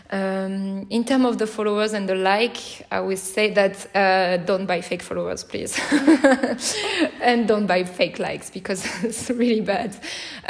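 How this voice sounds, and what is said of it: French accent. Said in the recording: “I love the French accent.”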